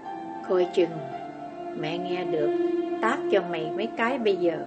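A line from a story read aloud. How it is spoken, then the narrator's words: Soft laugh. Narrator (Vietnamese): Như cười khẽ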